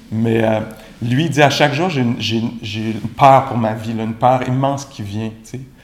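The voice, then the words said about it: Strong Québécois French accent. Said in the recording (French): “avec mon gros accent québécois”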